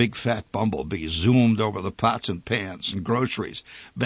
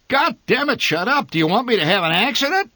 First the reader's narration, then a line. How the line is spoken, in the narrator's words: My father bellowed